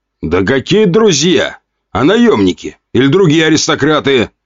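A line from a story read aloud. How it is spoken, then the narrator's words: Shouted. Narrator (Russian): выкрикнул князь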